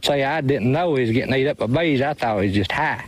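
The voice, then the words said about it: Thick Southern US accent. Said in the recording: “I need subtitles for that one... I speak Southern... I'm from Kentucky, and I had no idea what he said... a Southern apology”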